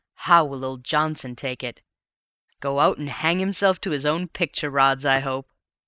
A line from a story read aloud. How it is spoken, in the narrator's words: he chuckled